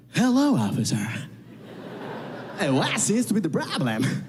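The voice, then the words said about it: Exaggerated put-on American accent. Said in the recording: “I'm going to use my American accent ... Why are you talking like that?”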